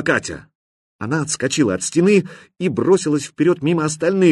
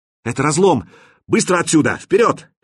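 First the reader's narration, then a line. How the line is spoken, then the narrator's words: Shouted in unison. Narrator (Russian): Кирилл, Нешек и Мировой закричали одновременно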